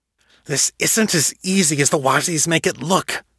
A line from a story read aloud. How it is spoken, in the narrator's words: Harold protested, through gritted teeth